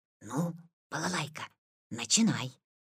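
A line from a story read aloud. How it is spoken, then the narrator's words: Quiet. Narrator (Russian): Витя сказал тихо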